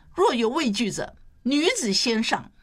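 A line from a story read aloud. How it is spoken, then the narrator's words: Loud. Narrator (Chinese): 她高声说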